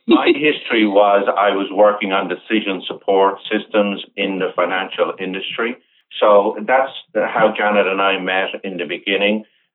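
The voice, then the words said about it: Irish brogue accent. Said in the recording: “your delicious Irish brogue”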